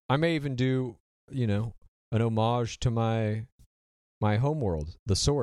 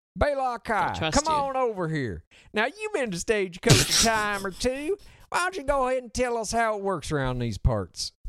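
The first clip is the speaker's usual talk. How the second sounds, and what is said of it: Put-on Southern accent with twang. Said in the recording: “put on a little... Southern accent, little twang”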